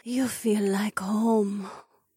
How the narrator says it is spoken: she said, back in a suddenly small voice

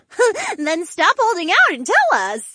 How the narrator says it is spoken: Valerie giggled

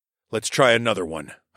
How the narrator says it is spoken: grunted

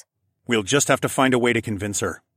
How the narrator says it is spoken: I decided in a firm tone

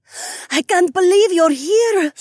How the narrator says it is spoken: Sky shrieked

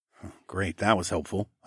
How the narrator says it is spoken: muttered

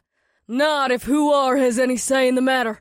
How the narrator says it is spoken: Zamwe called out

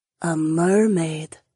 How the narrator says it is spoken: Jessamine breathed

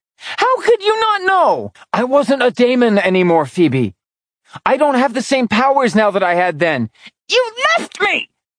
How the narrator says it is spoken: shrieked

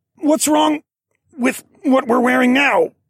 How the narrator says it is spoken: I grunted

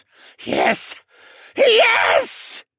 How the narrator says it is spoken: Vane hissed

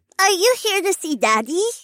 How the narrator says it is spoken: piped in her sweet voice

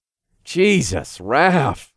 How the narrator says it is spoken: I sighed

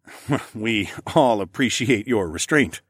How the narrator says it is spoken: I chuckled as I teased Sienna

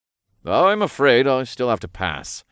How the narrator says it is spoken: Raph sighed

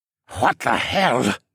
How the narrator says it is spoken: Dolian muttered

